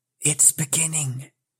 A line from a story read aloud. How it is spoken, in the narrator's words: whispered a voice at his elbow, which he hardly recognized as his aunt's